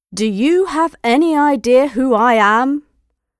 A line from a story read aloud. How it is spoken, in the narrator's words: He asked loudly so that the passengers behind him could hear